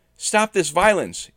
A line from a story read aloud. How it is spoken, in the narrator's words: yelled